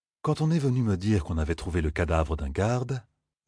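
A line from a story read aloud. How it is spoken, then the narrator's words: Lord speaking very calmly. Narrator (French): dit très calmement le haut seigneur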